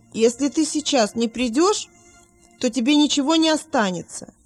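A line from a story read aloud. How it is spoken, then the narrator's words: Shouting. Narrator (Russian): Вилли крикнул матери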